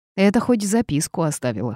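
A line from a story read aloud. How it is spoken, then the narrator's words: Snort. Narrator (Russian): хмыкнул Марк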